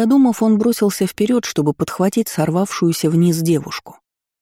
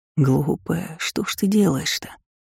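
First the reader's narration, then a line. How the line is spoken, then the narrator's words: Muttering after catching breath. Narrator (Russian): забормотал, отдышавшись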